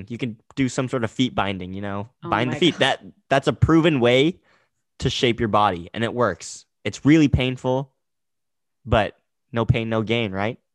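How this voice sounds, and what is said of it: Sarcastic tone. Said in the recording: “Again, that's sarcasm. If you can't tell from my voice.”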